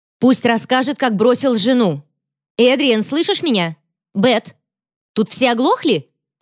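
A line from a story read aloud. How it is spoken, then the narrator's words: Yelling into microphone. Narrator (Russian): Вопит в микрофон Стелла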